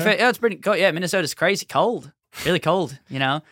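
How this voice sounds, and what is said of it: Bad put-on Australian accent. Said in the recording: “They don't know I'm doing a bad accent ... imagined what an Australian guy sounds like”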